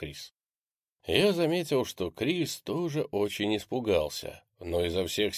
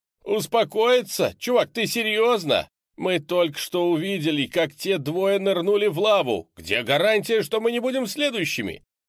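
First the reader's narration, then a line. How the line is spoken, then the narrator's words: Desperate shouting. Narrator (Russian): Пит кричал в ответ в полном отчаянии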